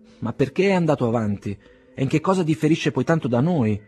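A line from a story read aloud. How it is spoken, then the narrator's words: Impatient exclamation. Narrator (Italian): esclamò con impazienza Pavel Petrovich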